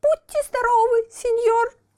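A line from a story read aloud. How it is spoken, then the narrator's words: Sobbing. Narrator (Russian): всхлипнул Буратино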